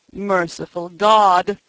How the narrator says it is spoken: he groaned

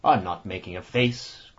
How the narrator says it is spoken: growled the annoyed Ossipon bearishly

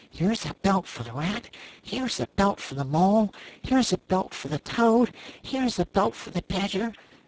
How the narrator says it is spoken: The anxious and laborious rat muttering

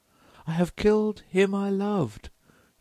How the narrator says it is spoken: she cried

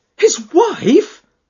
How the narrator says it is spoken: she cried

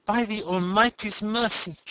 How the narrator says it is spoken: she exclaimed

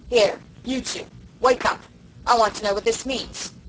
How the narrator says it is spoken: Somebody was saying in a harsh, gruff voice

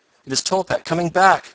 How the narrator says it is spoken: cried Mr

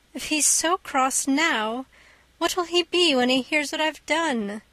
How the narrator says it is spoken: she reflected miserably

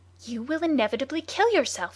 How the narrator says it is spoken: he cried

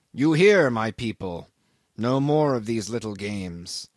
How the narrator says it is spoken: the old Rajah said quickly

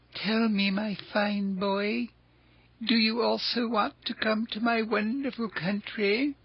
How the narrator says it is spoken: With bows and smiles, he asked in a wheedling tone

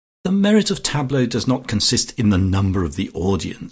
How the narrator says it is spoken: she said

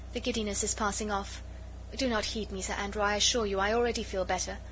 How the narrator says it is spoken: she murmured, still faintly

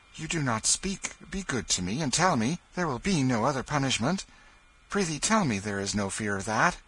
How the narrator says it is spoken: He said eagerly

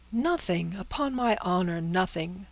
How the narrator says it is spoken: cried the father, shrinking from the paper as from contagion

